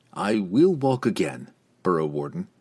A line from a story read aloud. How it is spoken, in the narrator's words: the relieved drow promised, his tone threatening